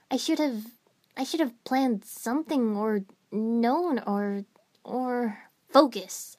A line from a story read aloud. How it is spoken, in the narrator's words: I snapped at myself